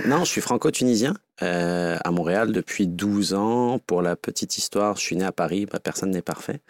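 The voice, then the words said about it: French accent, not Québécois. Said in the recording (French): “peut-être pas avec cet accent”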